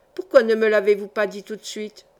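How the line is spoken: Plain question. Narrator (French): demanda Cara

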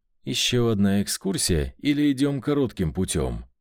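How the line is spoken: Calm. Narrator (Russian): Все так же спокойно уточнил Джарид

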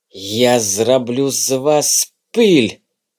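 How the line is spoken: Hissed. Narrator (Russian): прошипел он

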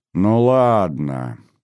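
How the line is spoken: Drawn-out, self-important. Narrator (Russian): важно протянула Наташа

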